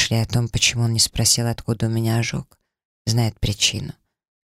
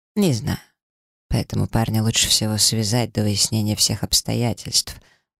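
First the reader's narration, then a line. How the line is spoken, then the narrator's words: Calm statement. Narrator (Russian): спокойно произнес обсидиан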